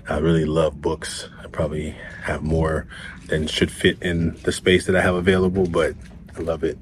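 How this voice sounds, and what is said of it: Soft, quiet whispered speech. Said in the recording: “You maybe hear me whispering a little bit. I'm doing my best to not uh, talk really loud”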